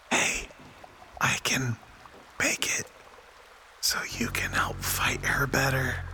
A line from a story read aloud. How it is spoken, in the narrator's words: Robin whispers to Gomer and says